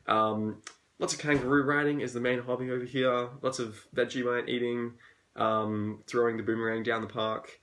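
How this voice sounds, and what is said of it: Australian accent. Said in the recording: “I'm Australian, as you can tell by my accent.”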